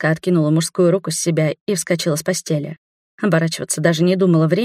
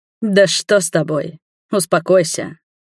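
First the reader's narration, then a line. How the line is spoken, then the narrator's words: Booming. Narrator (Russian): прогремел неизвестный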